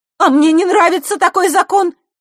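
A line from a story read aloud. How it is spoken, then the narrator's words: Forceful shout. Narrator (Russian): силой выкрикнула Василиса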